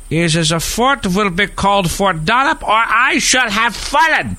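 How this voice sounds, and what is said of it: Put-on German accent. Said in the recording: “You like my German accent?”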